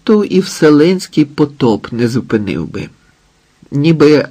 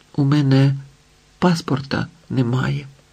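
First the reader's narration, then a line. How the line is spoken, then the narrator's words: Whispered. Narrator (Ukrainian): Рая прошепотіла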